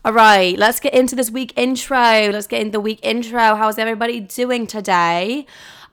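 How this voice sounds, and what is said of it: Bad put-on British accent. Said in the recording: “I know I have a horrible British accent. ... All my friends constantly remind me how terrible it is”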